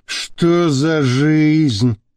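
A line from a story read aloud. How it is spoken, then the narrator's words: Heavy sigh. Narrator (Russian): тяжело вздохнул Шамиль Масхаев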